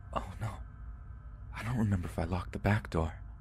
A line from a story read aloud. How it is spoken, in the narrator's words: her voice lowered to almost a whisper as she exclaimed